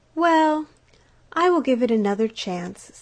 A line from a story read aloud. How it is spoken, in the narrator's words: sighed the duck